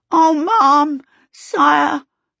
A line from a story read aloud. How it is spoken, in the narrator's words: the housemaid gasped